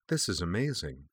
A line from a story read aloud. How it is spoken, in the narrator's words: she murmured